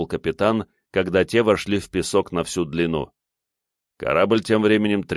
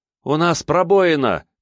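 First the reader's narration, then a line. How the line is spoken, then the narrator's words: Shout. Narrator (Russian): крикнула ему Манья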